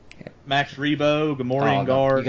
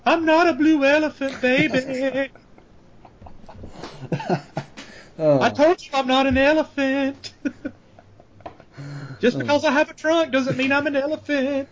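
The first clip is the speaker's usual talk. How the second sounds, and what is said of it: Cartoonish alien character voice. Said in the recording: “your Max Rebo impression.”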